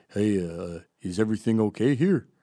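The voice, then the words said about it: Imitated native Canadian accent. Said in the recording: “he said with that inimitable native Canadian accent”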